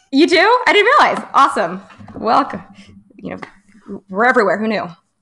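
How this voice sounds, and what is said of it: Slight Jewish American accent. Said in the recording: “you have a little bit of the Jewish accent happening”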